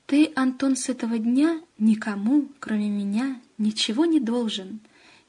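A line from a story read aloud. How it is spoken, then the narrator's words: Soft but insistent interruption. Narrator (Russian): мягко, но с нажимом перебил Шклобода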